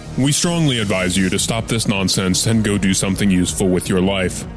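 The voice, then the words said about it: Deep announcer voice. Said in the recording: “deep voice man”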